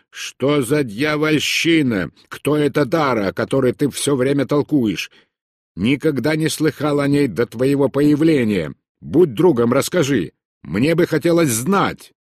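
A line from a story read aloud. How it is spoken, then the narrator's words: Snarling shout. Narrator (Russian): Он оскалил зубы и крикнул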